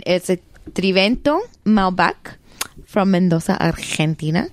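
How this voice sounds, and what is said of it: Put-on accent naming the wine. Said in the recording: “I like the accent you put on.”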